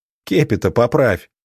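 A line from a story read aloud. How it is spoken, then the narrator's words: Advising through laughter. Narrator (Russian): посоветовал я, сгибаясь от хохота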